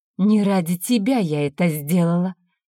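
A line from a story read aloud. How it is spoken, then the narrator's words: Through gritted teeth. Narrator (Russian): сквозь зубы процедила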